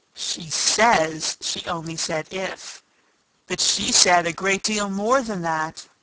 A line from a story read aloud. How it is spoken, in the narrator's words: the White Queen moaned, wringing her hands